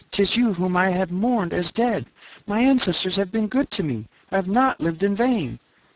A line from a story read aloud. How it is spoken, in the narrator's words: she cried, in an ecstasy of happiness